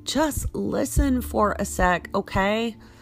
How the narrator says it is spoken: Mason shouted

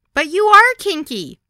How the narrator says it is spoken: yelled out

